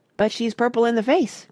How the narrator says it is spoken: cried Grandpa Joe

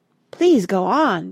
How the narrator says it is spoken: begged Mona

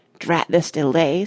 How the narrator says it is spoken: said Parrot irritably

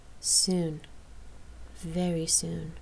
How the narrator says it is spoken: Rain voiced softly

